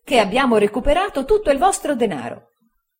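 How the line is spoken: Joyful exclamation. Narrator (Italian): esclamò Traddles raggiante di gioia

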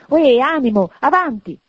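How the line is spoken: Pitying exclamation. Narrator (Italian): esclamò, compiangendo l'altro se stesso

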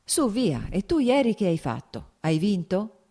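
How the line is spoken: Plain. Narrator (Italian): chiese Vronsky

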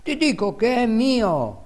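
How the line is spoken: Exclaimed. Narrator (Italian): esclamava

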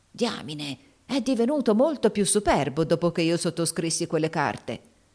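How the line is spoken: Muttered through teeth. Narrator (Italian): borbottò fra i denti Haley

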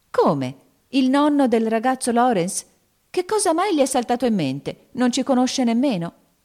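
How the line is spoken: Exclaimed. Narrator (Italian): esclamò Meg

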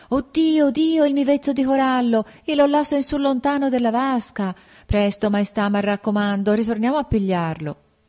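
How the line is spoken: Bride's exclamation. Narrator (Italian): la sposa esclama

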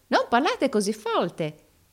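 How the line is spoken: Exclaimed, perfectly recited. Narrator (Italian): esclamò l'altro recitando la lezione a perfezione

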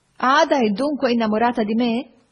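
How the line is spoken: Laughing. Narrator (Italian): feci ridendo

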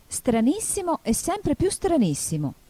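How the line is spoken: Exclaiming. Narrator (Italian): esclamò Alice

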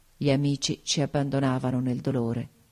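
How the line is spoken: Murmured. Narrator (Italian): mormorai

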